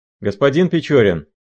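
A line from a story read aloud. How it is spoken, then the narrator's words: Captain shouting. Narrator (Russian): закричал драгунский капитан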